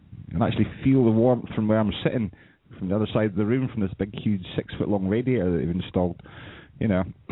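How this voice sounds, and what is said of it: Noticeable regional accent. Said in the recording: “Your accent is amazing.”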